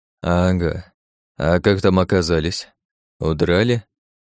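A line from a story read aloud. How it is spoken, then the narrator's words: Grim mocking chuckle. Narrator (Russian): мрачно усмехнулся Андрей Георгиевич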